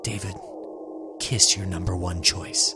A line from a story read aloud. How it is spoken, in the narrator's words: Sarah Jane whispered back